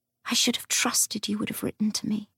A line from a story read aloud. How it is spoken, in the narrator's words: whispered